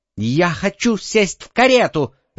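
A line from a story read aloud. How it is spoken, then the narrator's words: Little girl shouting. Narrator (Russian): закричала маленькая разбойница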